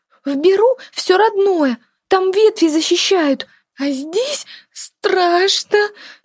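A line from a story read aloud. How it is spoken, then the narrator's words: Squeaky voice. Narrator (Russian): пропищала Тлынья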